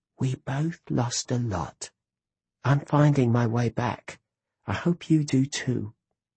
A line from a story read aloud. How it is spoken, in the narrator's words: I heard my sister whisper